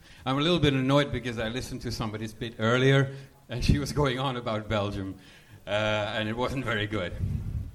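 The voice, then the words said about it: Slight Belgian accent. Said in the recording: “You have a little bit of an accent ... I'm from Belgium”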